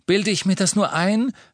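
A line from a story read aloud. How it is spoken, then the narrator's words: Called out after long silence. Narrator (German): rief Ron, nachdem sie recht lange geschwiegen hatten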